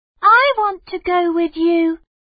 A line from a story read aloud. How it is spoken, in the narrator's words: Mei Mei shouted